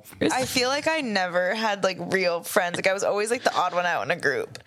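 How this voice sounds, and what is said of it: Young woman with vocal fry. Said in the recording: “annoying vocal fry”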